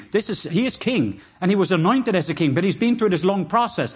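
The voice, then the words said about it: Norwegian accent. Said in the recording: “just my Norwegian accent”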